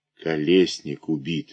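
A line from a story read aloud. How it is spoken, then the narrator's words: Mutter. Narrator (Russian): бормочу я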